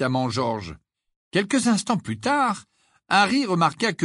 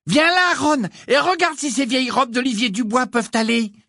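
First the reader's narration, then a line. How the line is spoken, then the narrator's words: Shouted. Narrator (French): lui cria Cathy Bell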